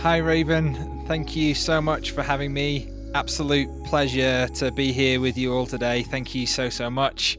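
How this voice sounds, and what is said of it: North Welsh accent. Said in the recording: “hear your accent ... I'm from the UK, from North Wales”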